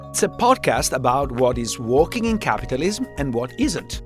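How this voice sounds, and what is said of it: Italian accent. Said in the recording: “You are from Italy. ... my name and accent ... the accent, I think, is pretty revealing.”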